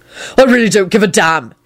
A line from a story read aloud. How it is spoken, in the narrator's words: he barked out